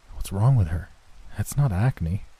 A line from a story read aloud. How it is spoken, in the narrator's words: I whispered to him